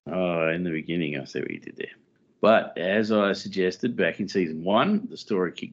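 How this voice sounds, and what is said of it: Usual voice. Nothing is said of it.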